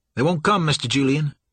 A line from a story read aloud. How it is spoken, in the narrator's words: Sour Billy said a little too quickly, a little too breathlessly